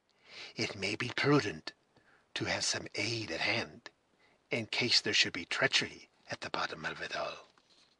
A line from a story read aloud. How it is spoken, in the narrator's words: he added in a half-whisper